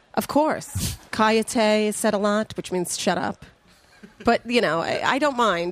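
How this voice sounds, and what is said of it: Loud New York accent. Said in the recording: “It's the New York accent. I sound like I'm yelling at everyone”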